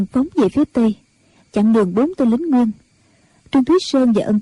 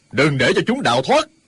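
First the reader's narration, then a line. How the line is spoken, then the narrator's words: Furious loud shout. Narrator (Vietnamese): Nhu Liên Châu cả giận, quát to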